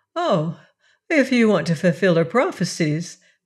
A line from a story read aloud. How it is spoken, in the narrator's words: laughed the princess